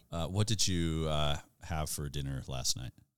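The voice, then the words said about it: Put-on American accent. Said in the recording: “a full non-Scottish American accent ... That was pretty good.”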